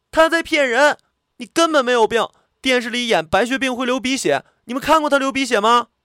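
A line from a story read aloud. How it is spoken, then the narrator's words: Flushed, loud shout. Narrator (Chinese): 涨红了脸，大声喊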